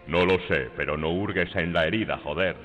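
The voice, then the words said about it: Deep, powerful man's voice. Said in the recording (Spanish): “Su voz era grave y poderosa como la voz de un hombre ... voz de hombre”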